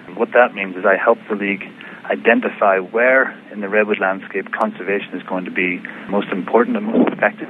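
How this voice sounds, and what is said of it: Softened Northern Irish accent. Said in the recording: “what is that wonderful accent of yours? ... I started off in Northern Ireland, but I've been in the U.S. for going on 25 years now, so it's probably a bit muddled.”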